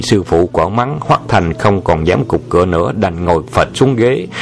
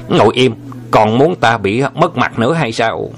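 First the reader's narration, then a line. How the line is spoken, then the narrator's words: Loud scolding shout. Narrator (Vietnamese): thầy mình là Huỳnh Thục chân nhân quát lớn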